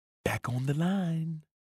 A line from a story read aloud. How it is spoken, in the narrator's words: said lightly, almost as if he were whispering